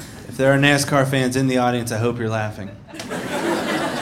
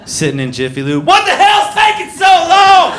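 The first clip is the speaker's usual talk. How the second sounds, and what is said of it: Yelling. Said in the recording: “sorry for yelling”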